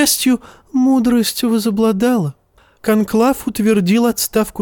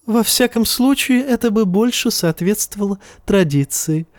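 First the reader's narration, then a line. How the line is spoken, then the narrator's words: Giggling. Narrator (Russian): хихикнул Евнух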